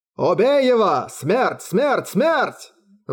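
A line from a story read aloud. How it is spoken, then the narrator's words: Roaring crowd. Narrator (Russian): взревели марсиане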